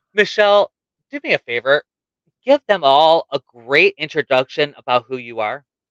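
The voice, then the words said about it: Speaking a little slower than usual. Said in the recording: “I sound a little weird ... I'm talking a little slower than I normally do”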